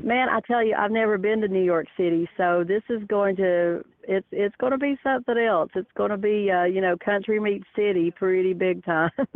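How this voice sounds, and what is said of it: Country accent. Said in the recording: “I know you can't tell that I'm from the country. This accent ... Yes, you definitely have”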